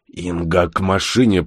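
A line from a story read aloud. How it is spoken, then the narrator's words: Hoarse wheeze. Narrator (Russian): прохрипел Бур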